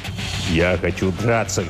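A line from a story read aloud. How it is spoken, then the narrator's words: Angry declaration. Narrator (Russian): злобно заявил тот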